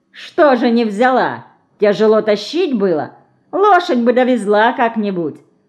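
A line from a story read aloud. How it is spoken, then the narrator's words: Mocking. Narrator (Russian): насмешливо скривил губы цыган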